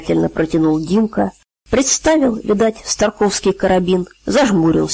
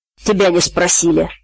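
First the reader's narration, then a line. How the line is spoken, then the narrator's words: Irritated snapping. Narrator (Russian): огрызнулся Димка, которому надоел цыган со своими прибаутками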